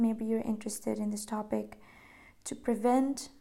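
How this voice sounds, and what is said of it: Usual voice. Nothing is said of it.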